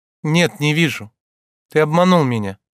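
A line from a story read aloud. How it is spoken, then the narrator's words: Said coldly. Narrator (Russian): холодно сказала она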